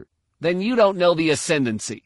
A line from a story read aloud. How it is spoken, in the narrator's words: Fel snapped